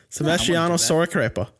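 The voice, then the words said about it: Mock Italian accent, sounds Irish. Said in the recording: “my awesome Italian accent that's actually just Irish”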